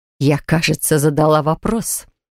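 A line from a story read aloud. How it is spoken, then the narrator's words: Hissed. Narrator (Russian): прошипела она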